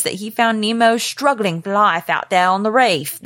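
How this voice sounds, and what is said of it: Weak attempted Australian accent. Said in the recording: “I can't do Australian accents. No, I'm sorry. ... Nice try.”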